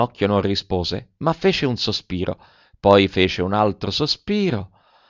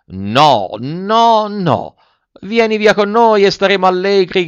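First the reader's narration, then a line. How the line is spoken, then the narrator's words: Several voices shouting, muffled. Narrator (Italian): gridarono altre 4 voci di dentro al carro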